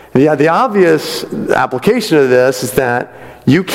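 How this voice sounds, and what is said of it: Usual voice. Nothing is said of it.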